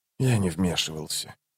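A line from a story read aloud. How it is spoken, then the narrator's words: Quiet. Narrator (Russian): тихо проговорил престол тени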